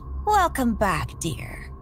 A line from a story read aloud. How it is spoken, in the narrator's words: she said, her voice chillingly serene